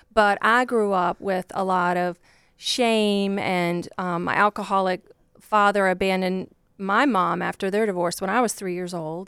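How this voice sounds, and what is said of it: Southern Virginia country accent. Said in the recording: “you probably hear from my accent. I'm not from Chicago ... I grew up just like a poor country girl from Virginia”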